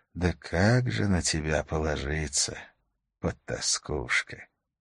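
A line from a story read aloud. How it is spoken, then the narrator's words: Whisper into receiver. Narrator (Russian): Прижав губы к серой пластмассе, он прошептал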